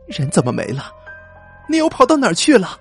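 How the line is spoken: Sudden scream. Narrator (Chinese): 突然尖叫起来

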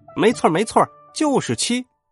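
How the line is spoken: Little monkey shouting. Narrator (Chinese): 小猴子安安喊着

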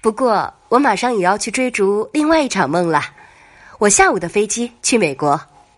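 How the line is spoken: Laughing. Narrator (Chinese): 笑道

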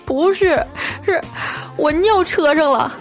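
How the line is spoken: Crying. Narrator (Chinese): 哭着对我说

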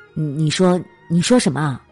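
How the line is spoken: Plain. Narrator (Chinese): 女人问

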